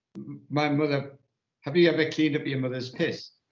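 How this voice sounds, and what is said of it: Imitated Welsh woman, Welsh accent. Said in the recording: “that mad Welsh woman saying ... in a proper Welsh accent.”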